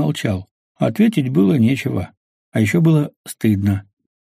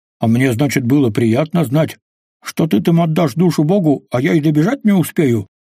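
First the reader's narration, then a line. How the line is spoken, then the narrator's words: Bark. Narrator (Russian): рявкнул Квас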